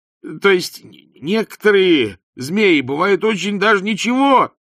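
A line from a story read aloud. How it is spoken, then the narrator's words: Desperate wail. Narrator (Russian): тщетно завопил Ринсвинд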